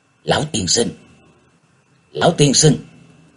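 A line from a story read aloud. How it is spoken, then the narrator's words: Quiet call. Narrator (Vietnamese): nhỏ giọng gọi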